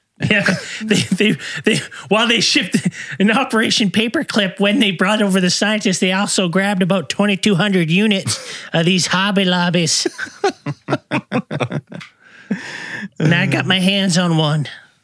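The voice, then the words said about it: Redneck character voice. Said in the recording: “that's my redneck who's really into RVs and he knows all the backstories”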